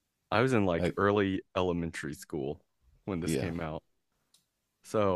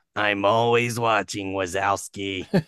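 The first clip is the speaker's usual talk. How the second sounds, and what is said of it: Impression of Roz from Monsters, Inc. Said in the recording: “do the voice of Ross ... That's a pretty good impression”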